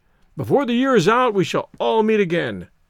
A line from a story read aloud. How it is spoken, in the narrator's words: cried Stoddard, hopefully